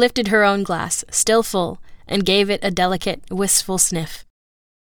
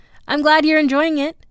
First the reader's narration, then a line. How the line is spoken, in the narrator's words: said C, brightly